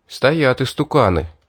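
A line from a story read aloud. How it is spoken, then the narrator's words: Quiet speech. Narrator (Russian): негромко сказал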